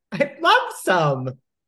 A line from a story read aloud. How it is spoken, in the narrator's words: she said cheerfully